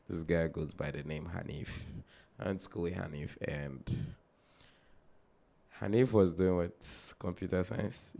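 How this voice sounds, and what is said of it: Voice a little messed up. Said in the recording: “Excuse my voice a bit. I was working last night, so my voice is a little messed up”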